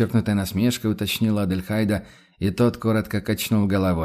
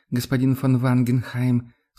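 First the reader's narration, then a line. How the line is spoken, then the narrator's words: Sighing. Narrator (Russian): сукаризной вздохнула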